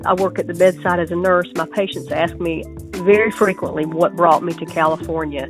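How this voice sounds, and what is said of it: Southern US accent. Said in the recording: “you can tell by my accent, I'm not from here ... I had to leave the South”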